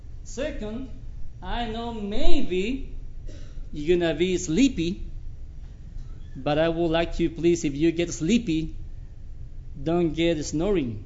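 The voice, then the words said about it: Bolivian-accented English. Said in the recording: “my Bolivian accent ... this Bolivian accent”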